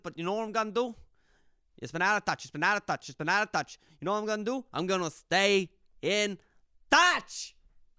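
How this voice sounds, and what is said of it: Speaks in a put-on accent. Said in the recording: “I don't know why I'm doing this accent”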